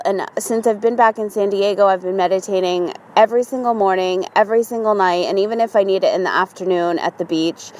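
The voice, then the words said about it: Tired, drained voice. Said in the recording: “I'm so tired. You can probably hear it in my voice.”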